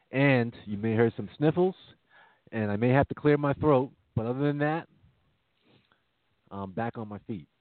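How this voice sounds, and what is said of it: Deeper than normal, sick voice. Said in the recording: “that's why my voice is the way it sounds. It's a little deeper than normal. ... It's a little Barry White-esque.”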